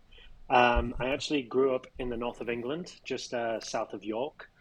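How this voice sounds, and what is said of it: Non-American, English accent. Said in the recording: “you can probably tell by my accent that I'm not American”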